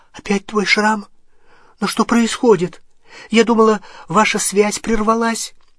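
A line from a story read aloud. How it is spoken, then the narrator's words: Frightened question. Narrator (Russian): Гермиона испуганным голосом спросила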